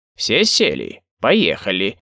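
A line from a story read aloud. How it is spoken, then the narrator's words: Squeaky driver's voice. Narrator (Russian): Писклявым голосом произнес водитель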